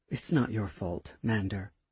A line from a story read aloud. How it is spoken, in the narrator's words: Kali spoke under her breath